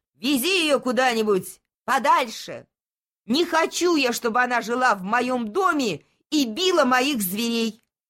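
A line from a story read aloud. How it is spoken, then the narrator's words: Shouting. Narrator (Russian): Он закричал моряку Робинзону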